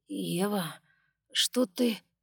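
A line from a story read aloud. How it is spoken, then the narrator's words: Sleepy mumble. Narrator (Russian): сонно пробормотал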